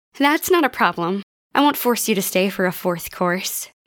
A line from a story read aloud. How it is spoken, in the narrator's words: Mika giggled